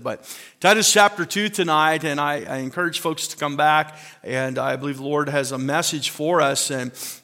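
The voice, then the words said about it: Hoarse, strained voice. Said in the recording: “I think that's why I'm losing my voice, because I'm crying and singing at the same time.”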